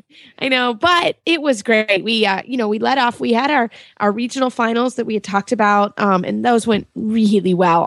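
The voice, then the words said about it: Hoarse voice from a cold. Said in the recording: “I do actually have a little bit of a cold ... I'm a little hoarse”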